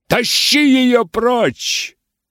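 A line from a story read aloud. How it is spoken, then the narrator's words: Wild shouting. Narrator (Russian): дико кричал Хитклифф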